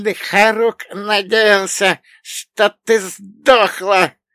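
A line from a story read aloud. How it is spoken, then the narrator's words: Vicious hiss. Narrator (Russian): Настолько злобно прошипел мой одноглазый друг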